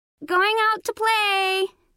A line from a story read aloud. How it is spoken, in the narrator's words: she shouted